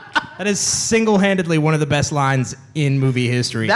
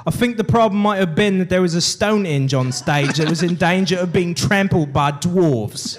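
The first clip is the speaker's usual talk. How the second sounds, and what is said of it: Convincing put-on British accent. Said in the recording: “A great accent, by the way. ... your British accent, and it's amazing.”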